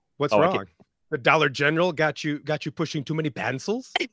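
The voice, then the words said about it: Put-on accent. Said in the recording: “you tried to do the accent”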